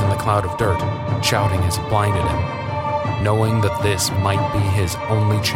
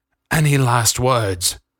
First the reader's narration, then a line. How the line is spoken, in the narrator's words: groaned Hadley